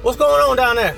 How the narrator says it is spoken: Dante shouted

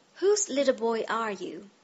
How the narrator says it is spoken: he demanded kindly

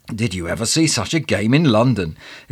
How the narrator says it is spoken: exclaimed the man next to me

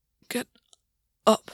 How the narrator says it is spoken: Gwyn whispered to himself

